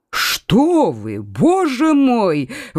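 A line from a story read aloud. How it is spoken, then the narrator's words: Exclaiming, feigned astonishment. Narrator (Russian): воскликнул Генрих, прекрасно разыгрывая изумление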